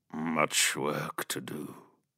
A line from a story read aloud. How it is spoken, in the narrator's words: he said, his voice deep, almost mournful